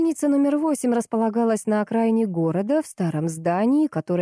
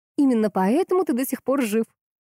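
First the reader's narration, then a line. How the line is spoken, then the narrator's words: Smirking grunt. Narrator (Russian): хмыкнула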